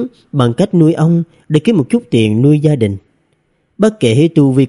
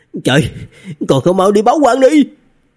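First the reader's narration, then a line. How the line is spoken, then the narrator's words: Someone shouting. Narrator (Vietnamese): Có người hét lên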